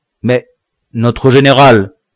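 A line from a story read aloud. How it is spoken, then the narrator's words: Confused, trembling stammer. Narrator (French): balbutia le nègre confus et tremblant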